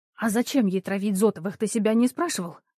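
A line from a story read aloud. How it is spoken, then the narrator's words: Indignant hiss. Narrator (Russian): зашипела я, чувствуя, что закипают негодование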